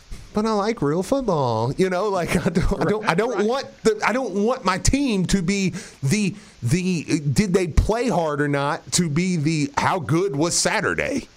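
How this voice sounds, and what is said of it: Whiny voice. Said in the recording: “do my whiny voice.”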